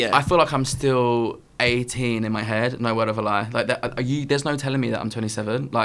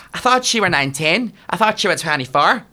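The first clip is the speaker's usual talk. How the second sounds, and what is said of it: Put-on Northern Irish accent. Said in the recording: “I can't do an Irish accent. I'm doing a Northern Irish accent, actually. ... Go, do a Northern Irish.”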